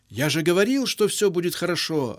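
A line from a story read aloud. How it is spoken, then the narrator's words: Joyful child announcing. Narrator (Russian): радостно объявил капитан малыш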